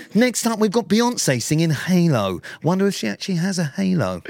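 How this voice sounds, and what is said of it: Cheesy wedding DJ radio voice. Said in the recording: “You do a radio voice... It's like DJ Dave at the wedding.”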